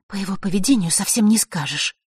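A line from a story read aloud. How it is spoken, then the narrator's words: Annoyed mutter. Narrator (Russian): пробормотала Василиса, еще раз досадованная их с Фэшем размолвкой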